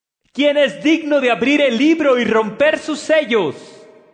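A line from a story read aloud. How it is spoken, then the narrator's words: Mighty angel shouting loudly. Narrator (Spanish): un ángel poderoso que gritaba con fuerte voz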